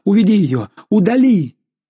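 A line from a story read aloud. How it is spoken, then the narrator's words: Shouted. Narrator (Russian): Жанна крикнула отцу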